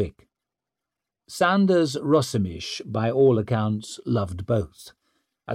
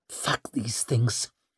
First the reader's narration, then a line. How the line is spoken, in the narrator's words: she grunted